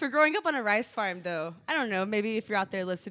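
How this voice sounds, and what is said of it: Usual voice. Nothing is said of it.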